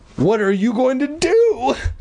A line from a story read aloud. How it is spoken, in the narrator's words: Todd cried